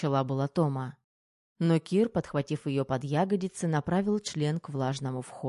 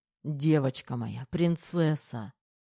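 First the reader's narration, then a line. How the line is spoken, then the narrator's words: Muttering. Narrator (Russian): бормотал Терех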